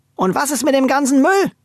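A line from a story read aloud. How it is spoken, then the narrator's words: Calling out. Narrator (German): rief die Kessekessi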